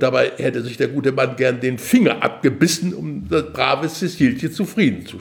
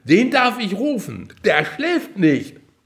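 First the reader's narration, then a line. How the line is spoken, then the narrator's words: Cheerful call. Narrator (German): rief vergnügt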